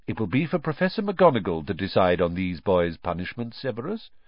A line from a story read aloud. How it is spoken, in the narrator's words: said Dumbledore calmly